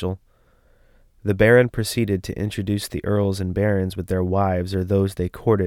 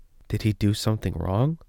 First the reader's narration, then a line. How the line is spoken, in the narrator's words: whispered Prince Abner